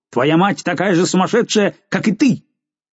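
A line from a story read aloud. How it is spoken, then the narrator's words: Furious shout. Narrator (Russian): Жульен в бешенстве крикнул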